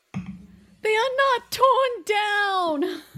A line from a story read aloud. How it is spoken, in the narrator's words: cried Scrooge